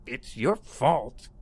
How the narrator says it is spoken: he said loudly and angrily

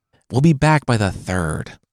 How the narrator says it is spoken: the woman whispered

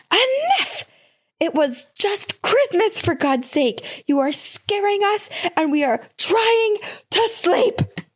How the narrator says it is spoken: I yelled to her

